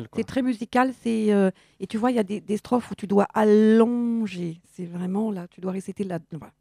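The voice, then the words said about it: Burgundy French accent, drawn-out syllables. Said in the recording (French): “tu as l'accent bourguignon, donc naturellement, tu allonges.”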